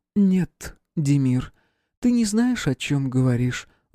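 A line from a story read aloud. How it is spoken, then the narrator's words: Sighing. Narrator (Russian): вздохнула Анна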